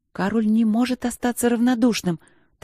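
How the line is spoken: Hurried whisper. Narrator (Russian): торопливо зашептала я

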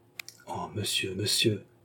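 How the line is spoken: Murmur. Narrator (French): murmura le prince Louis

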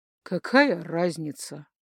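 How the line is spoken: Gloomy snap. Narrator (Russian): мрачно огрызнулся Акар

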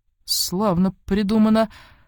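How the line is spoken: Exclaiming. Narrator (Russian): воскликнул младший чиновник

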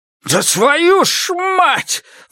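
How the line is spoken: Roaring. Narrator (Russian): взревел Иниго

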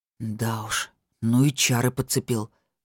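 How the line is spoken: Grumbling. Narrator (Russian): буркнул

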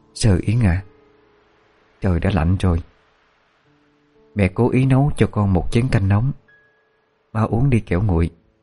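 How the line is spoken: Gentle woman. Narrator (Vietnamese): Người phụ nữ dịu dàng mà nói

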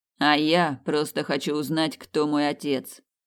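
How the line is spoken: Muttering. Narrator (Russian): пробурчал Томас

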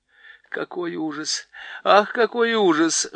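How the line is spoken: Whimpering. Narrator (Russian): хныкала Лазарелина

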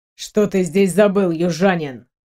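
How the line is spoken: Growl. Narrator (Russian): рыкнул Миг

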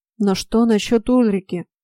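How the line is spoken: Muffled rumble. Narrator (Russian): глухо пророкотал из сферы Фрей

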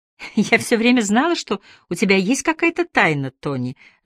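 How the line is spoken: Laughing. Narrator (Russian): засмеялась она

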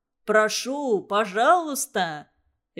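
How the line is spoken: Cheerful scientist's reply. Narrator (Russian): Весело отозвался ученый

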